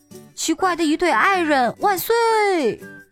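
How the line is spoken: Crowd shouting. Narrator (Chinese): 大家也跟着叫

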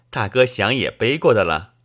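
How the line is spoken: Laughing. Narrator (Chinese): 我笑道

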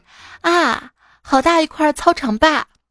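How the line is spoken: Loud exclamation. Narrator (Chinese): 同学突然大声的感慨

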